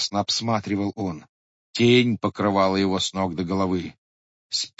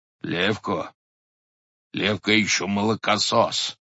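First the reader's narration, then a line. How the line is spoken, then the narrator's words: Hoarse half-voiced man. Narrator (Russian): говорил хрипло и в полголоса высокий человек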